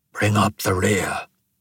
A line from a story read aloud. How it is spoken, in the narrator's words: he whispered